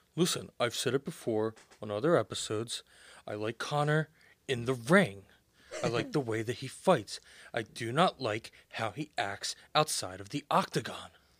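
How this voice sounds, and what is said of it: Imitates another person's voice. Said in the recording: “I can do my Rob impression ... God, spot on. Even down to the mannerism.”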